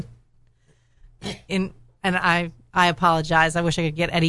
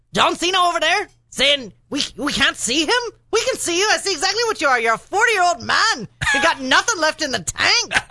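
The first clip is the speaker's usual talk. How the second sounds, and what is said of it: Irish accent impression of Conor McGregor. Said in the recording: “I don't do a good Irish accent ... That was pretty good”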